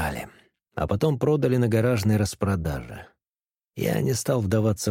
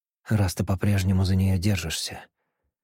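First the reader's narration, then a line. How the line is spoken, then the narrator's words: Gentle objection. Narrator (Russian): мягко возразила она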